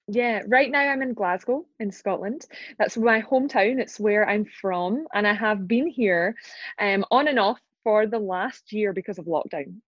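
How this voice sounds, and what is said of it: Strong Scottish accent. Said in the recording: “the Scottish accent is strong, real ... sounds powerful”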